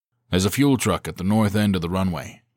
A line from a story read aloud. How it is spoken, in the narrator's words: he said quickly